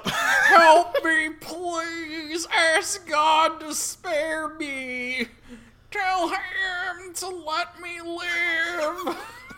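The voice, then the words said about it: Voice of a dying man. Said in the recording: “this man ... dissolving ... You can do his voice.”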